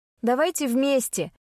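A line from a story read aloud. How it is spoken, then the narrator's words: Shouted, female. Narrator (Russian): крикнула я ребятам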